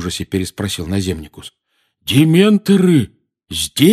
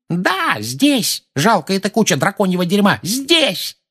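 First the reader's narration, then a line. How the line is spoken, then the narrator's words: Woman yelling. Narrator (Russian): заорала миссис Фиг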